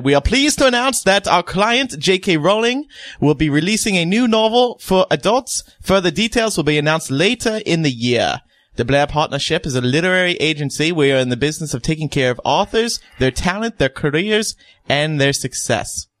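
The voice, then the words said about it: Bad mixed put-on foreign accent. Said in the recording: “What accent is that? ... It's a mix of nonsense. ... it's not good. ... Scandinavian, half ... Scottish, ... Borat. ... Australian, yeah. Borat. It's bad.”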